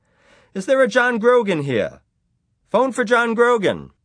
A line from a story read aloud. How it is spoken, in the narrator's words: the bartender called out